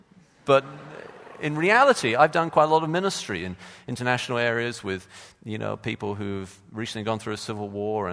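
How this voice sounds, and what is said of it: Posh English accent. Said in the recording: “my posh accent”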